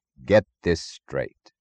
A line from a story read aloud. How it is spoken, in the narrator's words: said Dr